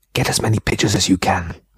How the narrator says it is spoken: Remy whispered

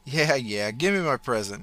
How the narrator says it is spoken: giggled

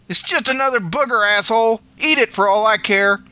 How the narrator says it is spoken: She yelled back

